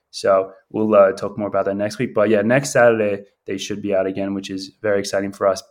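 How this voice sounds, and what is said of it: Sick, weird-sounding voice. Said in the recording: “my voice sounds a little bit different ... You both sound weird ... and I both have COVID right now ... we're pretty sick”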